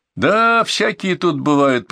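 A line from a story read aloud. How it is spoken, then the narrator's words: Drawn-out drawl. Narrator (Russian): протянул Витя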